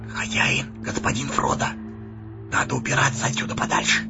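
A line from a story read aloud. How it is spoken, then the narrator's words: Whisper. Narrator (Russian): Сэмми … шепнул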